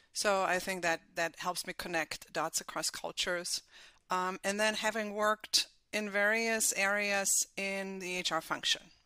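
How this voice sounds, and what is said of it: Slight German accent. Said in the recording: “my slight accent is from Germany”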